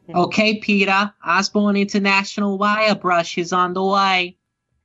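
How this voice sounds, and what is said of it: Lois Griffin voice impression. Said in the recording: “do a Lois Griffin voice”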